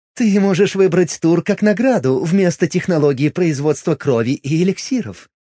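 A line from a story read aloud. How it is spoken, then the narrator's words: Laughing. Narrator (Russian): рассмеялась Миром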